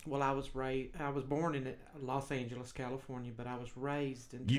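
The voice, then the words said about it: Texas accent. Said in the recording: “I got a Texas accent.”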